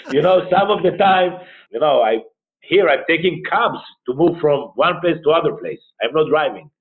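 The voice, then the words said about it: Israeli-accented English. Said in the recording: “you might lose your accent ... Ah, you are from Israel ... your accent.”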